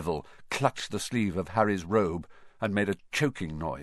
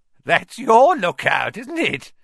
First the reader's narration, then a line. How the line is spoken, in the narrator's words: said Filch, his voice cracking with glee